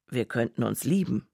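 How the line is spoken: Plain. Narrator (German): sagte Clifford

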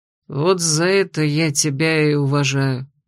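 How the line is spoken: Quieter mutter. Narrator (Russian): еще тише буркнул блондин

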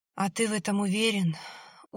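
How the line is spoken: Weary. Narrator (Russian): устало сказал Борис

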